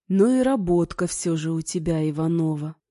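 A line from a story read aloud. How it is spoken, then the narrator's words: Plain. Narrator (Russian): сказал он только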